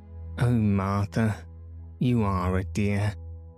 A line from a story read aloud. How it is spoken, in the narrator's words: sighed Anthea